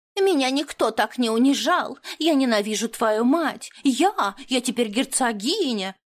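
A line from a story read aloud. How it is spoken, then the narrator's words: Mocking, shrill, nasty voice. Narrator (Russian): Передразнила противным визгливым голоском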